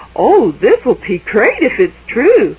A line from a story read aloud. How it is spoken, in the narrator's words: Maddie said happily